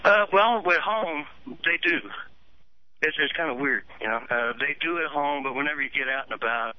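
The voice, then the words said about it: Southern US accent. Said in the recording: “a southern accent, United States”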